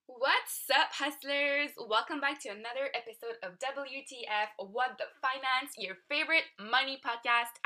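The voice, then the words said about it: French accent. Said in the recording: “I am French, pardon the accent”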